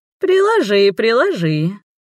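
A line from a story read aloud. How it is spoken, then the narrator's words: Snide sugary singsong. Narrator (Russian): ехидно елейным голоском пропела Марвена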